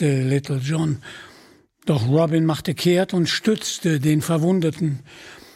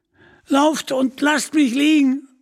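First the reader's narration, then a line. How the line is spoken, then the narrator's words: Screaming in pain. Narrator (German): schrie Little John noch einmal unter Schmerzen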